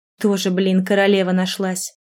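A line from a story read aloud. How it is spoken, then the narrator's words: Snorted. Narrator (Russian): Фыркнула ей вслед Вероника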